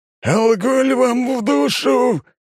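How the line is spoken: Inhuman roar, pilot. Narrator (Russian): нечеловеческим голосом ревет пилот

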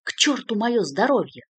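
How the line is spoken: Irritated reply. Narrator (Russian): раздраженно ответил Артью

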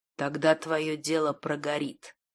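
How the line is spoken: Barely audible. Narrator (Russian): также еле слышно произнес Радегост

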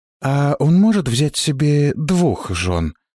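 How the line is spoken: Timid, embarrassed question. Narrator (Russian): робко спросила Полли, заливаясь краской

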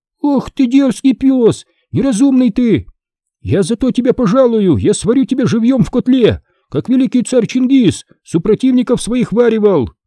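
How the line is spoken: Girl shouting. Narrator (Russian): Девочка закричала

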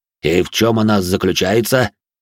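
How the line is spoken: Deep bass voice. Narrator (Russian): пробасил де Журиньи

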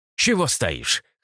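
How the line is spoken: Snorting. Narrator (Russian): хмыкнул Люциус

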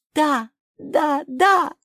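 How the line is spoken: Shouting. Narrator (Russian): закричала Соня

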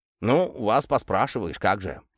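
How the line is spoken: Grumbling. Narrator (Russian): проворчал он

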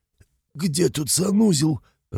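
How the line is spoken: Hoarse male wheeze. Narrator (Russian): прохрипел он

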